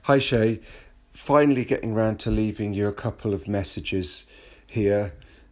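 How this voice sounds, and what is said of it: British accent. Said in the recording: “British anchorites ... Just the accent alone makes everything they have to say sound more important, more well thought out, and just lends a gravitas”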